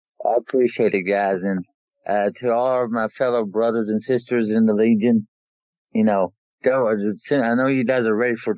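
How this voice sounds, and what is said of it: Southeast Tennessee twang. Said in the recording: “my Southeast Tennessee twang”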